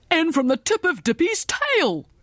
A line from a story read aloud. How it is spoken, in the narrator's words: cried the principal